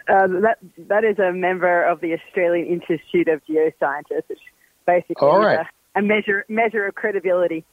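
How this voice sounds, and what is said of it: Australian accent. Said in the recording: “it's really great to hear that Australian accent”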